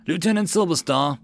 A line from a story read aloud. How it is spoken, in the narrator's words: Joseph stood at the marshalling ground of the stronghold and called out to the various company commanders